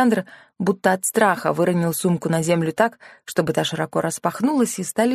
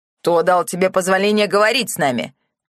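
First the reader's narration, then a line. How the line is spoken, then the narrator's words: Bellowed. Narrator (Russian): гаркнул Фридрих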